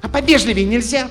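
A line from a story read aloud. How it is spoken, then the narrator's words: Girl snapping. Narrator (Russian): Огрызнулась девчонка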